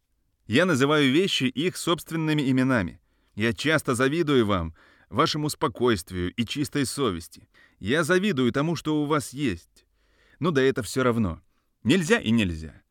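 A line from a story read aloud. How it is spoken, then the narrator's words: Angry. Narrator (Russian): перебил он сам себя злым голосом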